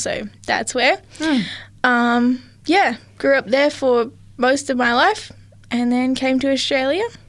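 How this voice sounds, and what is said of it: Mixed New Zealand accent. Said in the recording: “you've got a bit of a mixed accent there ... if you've heard an accent, I am from New Zealand, so I'm a full Kiwi.”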